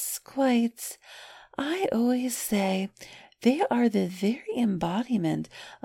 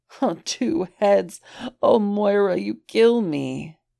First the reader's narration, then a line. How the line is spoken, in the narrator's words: Roland wheezed